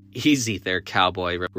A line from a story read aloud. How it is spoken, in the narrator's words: Rebecca giggled